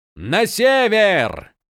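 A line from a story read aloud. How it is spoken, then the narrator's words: Shout. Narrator (Russian): прокричал Крас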